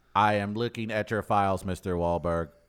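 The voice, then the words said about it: Bad robotic RoboCop voice. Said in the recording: “That's a bad RoboCop ... impersonation. ... Really bad. ... That's a horrible RoboCop. ... You can't do a robot.”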